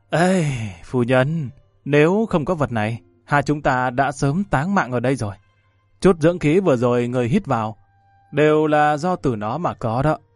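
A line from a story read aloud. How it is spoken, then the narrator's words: Moved, sighing. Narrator (Vietnamese): Đàm Vân Vinh cảm khái thở dài một tiếng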